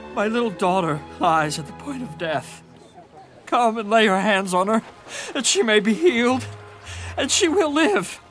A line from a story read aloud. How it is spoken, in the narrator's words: begged him earnestly